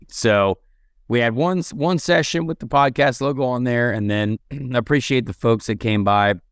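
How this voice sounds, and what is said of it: Hoarse, strained voice. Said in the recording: “lost my voice”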